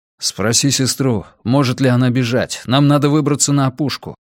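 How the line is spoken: Quick. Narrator (Russian): быстро сказал Йона

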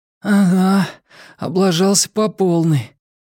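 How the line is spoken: Tired, smiling. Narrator (Russian): устало улыбнувшись, ответил он

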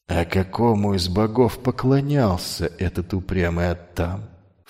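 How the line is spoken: Ingratiating question. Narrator (Russian): вкрадчиво интересуется Крон

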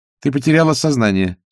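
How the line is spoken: Dry. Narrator (Russian): сухо пояснила Агнесса

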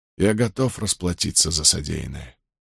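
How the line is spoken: Quiet. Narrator (Russian): тихо произнес он

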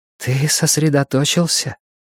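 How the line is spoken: Telepathic whisper. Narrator (Russian): прошептала она в моей голове

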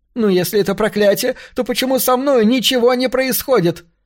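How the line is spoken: Sudden shriek. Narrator (Russian): Вдруг завизжала она на мужа

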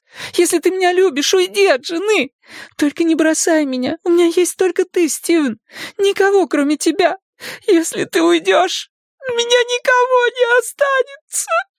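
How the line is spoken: Loud sobbing. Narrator (Russian): Она рыдала в голос

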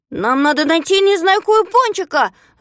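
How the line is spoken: Shouted reply. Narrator (Russian): закричал в ответ Знайка

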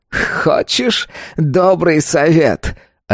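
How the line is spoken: Asked after laughing. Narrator (Russian): отсмеявшись, спросил он

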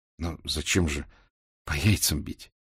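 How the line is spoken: Very quiet question. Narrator (Russian): спросил я совсем тихо

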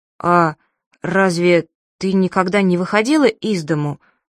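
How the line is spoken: Bewildered question. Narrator (Russian): растерянно спросил Абдулла

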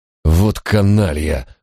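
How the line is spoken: Exhaled. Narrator (Russian): выдохнул Барак

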